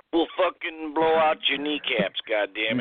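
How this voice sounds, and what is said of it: Attempted Russian accent. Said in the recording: “that's Russian, that's right. I don't know what accent I was ... Trying to do.”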